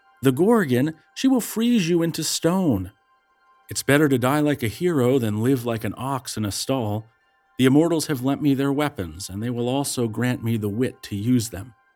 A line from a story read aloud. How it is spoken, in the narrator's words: the nymph sighed and wept and answered